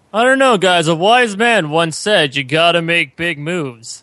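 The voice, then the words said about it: Impression of Rupert. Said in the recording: “you're doing your Rupert impression?”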